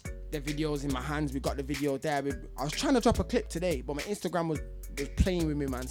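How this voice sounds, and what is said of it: Manchester accent. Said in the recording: “I'm from Manchester. I want to hear my accent”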